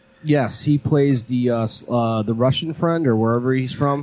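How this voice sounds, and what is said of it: Usual voice. Nothing is said of it.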